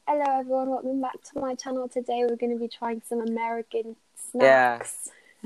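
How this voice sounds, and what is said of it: Put-on British accent. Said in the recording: “I'd pretend to have a British accent”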